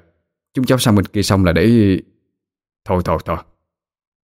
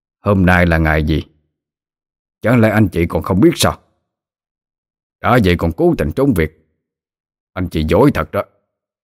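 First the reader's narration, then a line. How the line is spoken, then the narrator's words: Harsh speech. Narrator (Vietnamese): ông ta gay gắt nói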